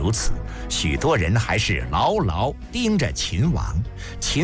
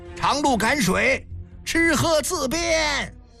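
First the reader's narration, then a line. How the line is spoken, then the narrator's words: Soldiers repeatedly shouting. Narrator (Chinese): 丽园军士沿途不断呼喊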